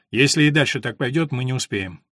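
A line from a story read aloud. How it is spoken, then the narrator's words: Dejected voice. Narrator (Russian): уныло произнес он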